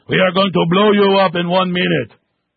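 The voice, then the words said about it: Fake Persian accent. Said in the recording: “a fake Persian accent.”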